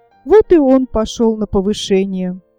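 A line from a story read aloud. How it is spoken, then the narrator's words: Sighing. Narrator (Russian): вздохнула штопальная игла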